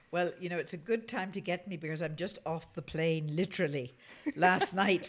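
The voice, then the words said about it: Thick Irish accent. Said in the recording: “back in Ireland with your fabulous accent ... my accent's going to be a bit thicker”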